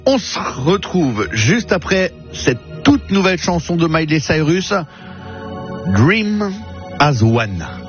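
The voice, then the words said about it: French speaker using English accent. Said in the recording (French): “Et je l'ai dit avec l'accent anglais, hein, je peux vous le dire. Je fais des efforts”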